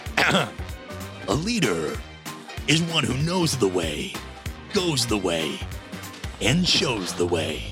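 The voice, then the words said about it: Dramatic movie-trailer narrator voice. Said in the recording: “in a movie theater voice.”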